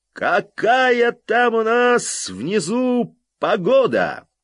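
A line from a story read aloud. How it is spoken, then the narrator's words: Yelled. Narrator (Russian): Джонни заорал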